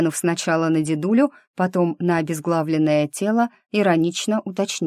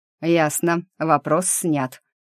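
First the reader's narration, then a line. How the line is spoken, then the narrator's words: Smirking grunt. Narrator (Russian): хмыкнул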